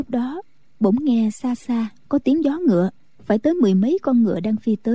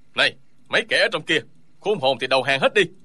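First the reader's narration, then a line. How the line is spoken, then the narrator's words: Shouted. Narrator (Vietnamese): có tiếng quát lên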